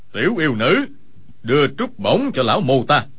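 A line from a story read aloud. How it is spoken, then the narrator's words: Cold. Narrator (Vietnamese): một người lạnh lùng nói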